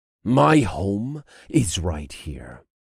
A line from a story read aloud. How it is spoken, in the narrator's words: snarled